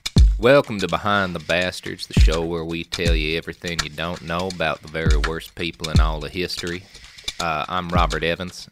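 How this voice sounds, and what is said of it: Deep Southern US accent. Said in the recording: “my accent ... I am a Southern man ... That's my natural voice ... No affectation ... That's Deep South. Deep South. Man, I'm a Southern gentleman.”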